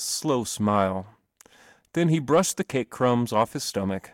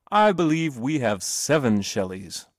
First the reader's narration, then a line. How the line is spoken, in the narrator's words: said Mr